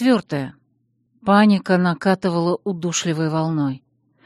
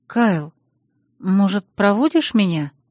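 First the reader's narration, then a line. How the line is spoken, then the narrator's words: Timid question. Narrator (Russian): робко спросила я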